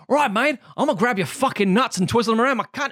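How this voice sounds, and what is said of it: Put-on exaggerated Australian accent. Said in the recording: “she's fucking Australian ... the offensive accent ... Sorry, Australians.”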